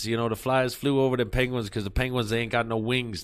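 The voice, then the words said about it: Put-on Boston accent. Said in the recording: “We're going to do it in a Boston accent ... That's kind of New Jersey meets Boston”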